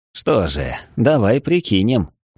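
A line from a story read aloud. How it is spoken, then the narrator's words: Wry snort. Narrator (Russian): хмыкнул Эридани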